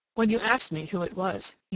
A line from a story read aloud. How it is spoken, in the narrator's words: he murmured